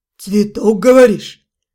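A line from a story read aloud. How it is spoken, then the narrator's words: Skeptical hum. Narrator (Russian): Мой собеседник тоже хмыкнул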